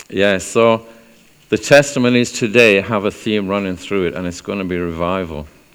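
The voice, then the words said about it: South Welsh accent, speaking slowly. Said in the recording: “If you can't place my accent, I'm speaking very slowly at the moment because I'm from South Wales.”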